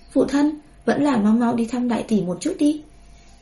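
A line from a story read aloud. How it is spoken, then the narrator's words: Earnest, warm. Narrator (Vietnamese): Bùi Nguyên Ca thần thiết nói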